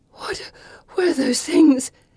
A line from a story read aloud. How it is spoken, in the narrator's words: Pippa manages to say between breaths